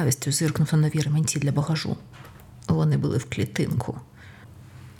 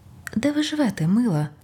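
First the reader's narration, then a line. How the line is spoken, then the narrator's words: Very sweet inquiring tone. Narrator (Ukrainian): найсолодшим тоном поцікавився з Рафаїл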